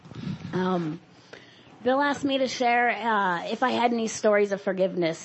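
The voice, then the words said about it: Sick, cold-affected voice. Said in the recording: “forgive my voice, I'm getting over a cold”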